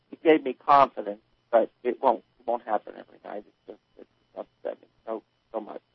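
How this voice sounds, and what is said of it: New Jersey accent. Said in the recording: “this Jersey accent ... I love that Jersey accent”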